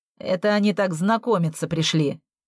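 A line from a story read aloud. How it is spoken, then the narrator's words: Snort. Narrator (Russian): фыркнул Макс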